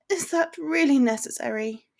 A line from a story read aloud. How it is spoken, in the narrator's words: She groaned